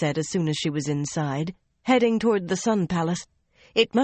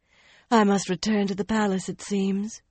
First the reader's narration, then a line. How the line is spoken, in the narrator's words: she sighed